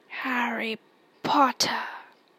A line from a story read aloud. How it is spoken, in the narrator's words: it whispered